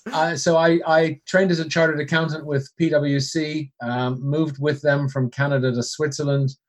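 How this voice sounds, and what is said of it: Canadian accent. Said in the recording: “I'm originally from Canada, hence the accent, although occasionally I get told people think I'm Irish”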